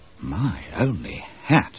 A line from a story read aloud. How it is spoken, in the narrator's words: Bob Cherry murmured to Wharton